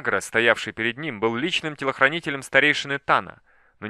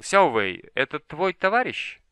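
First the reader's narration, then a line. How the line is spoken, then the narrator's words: Calm question. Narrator (Russian): спокойно спросил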